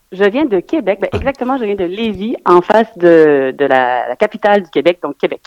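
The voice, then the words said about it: Slight Québécois French accent. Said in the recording (French): “tu as un petit accent quand même”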